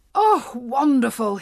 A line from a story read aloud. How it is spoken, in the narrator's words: he cried